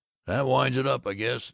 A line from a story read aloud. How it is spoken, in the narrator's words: He grunted